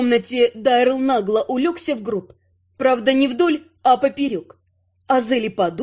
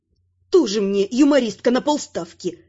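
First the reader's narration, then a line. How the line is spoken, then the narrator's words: Snapping retort. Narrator (Russian): огрызнулась я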